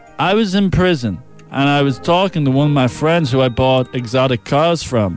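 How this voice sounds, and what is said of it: Strange put-on tough-guy accent. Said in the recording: “The accent is just strange. I've only realised now, it's nothing like Mike Tyson. ... It's more like Arnold Schwarzenegger / Rocky Balboa.”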